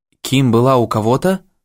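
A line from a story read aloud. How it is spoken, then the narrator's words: Confused question. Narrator (Russian): растерянно спросил Моррисон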